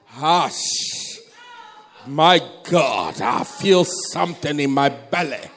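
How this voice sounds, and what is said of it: Mock deep spiritual preacher voice. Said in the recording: “his voice is very, very deep... speak with a spiritual accent”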